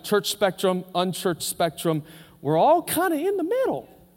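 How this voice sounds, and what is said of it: Mickey Mouse cartoon voice. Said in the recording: “I don't know why I did that with my voice. ... I pretend I'm Mickey Mouse”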